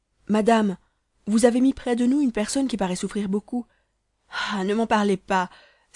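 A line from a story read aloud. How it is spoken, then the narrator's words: Hostess exclaiming. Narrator (French): s'écria la maîtresse de l'hôtel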